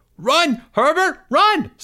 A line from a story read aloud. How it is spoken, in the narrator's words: screamed Pickle